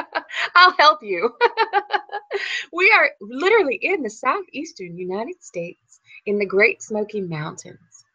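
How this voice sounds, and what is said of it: Southern American accent. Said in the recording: “is that a Texas accent ... I know we're famous in the South for our accent. You know, Southern accent is a very famous and well-known accent.”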